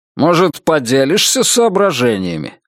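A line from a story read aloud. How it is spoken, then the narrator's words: Irritated question. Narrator (Russian): раздраженно спросил Генри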